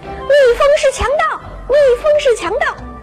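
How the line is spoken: Shouting. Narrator (Chinese): 这麻雀喊

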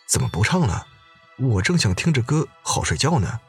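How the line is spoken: Puzzled mumbling. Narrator (Chinese): 有人不解，嘟囔着

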